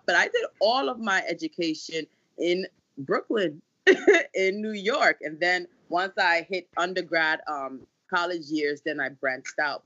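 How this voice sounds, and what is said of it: Ghanaian-sounding African accent. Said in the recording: “this accent that I have... people used to always think I was Jamaican... my family's from Ghana”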